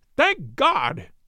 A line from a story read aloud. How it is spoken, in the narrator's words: he cried